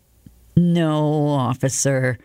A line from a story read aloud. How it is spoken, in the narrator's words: Leonard answered miserably